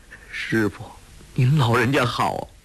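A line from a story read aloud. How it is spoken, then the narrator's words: Choked with tears. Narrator (Chinese): 陆成风哽咽道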